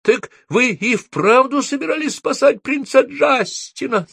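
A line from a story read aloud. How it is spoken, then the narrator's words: Shrieked. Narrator (Russian): завизжала Софи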